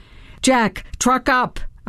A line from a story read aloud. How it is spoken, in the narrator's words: I yelled as I panted behind him